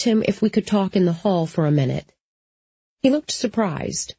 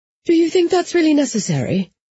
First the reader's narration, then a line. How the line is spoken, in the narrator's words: she'd said in a panicky voice